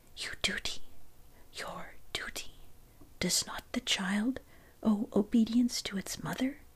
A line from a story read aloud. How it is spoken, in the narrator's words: A voice whispers